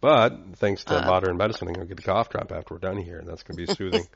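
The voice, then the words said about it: Raspy, hoarse voice from a cold. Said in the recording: “my throat's all sore and I'm getting all raspy and feeling a little under the weather. So if you hear me getting a little hoarse,”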